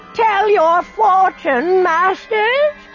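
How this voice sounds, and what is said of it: Shrill, squeaky old woman's voice. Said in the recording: “The voice was shrill and squeaky, and he couldn't place the accent.”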